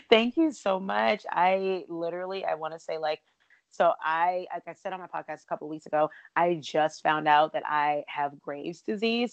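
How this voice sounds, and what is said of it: Raspy, hoarse voice. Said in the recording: “I love your raspy voice ... my voice gets so hoarse all the time”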